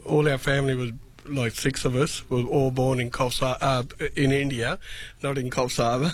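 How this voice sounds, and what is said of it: Strong non-native English accent. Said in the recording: “I love the accent. ... You've got a great, you've got a great”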